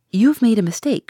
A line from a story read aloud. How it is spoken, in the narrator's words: she cried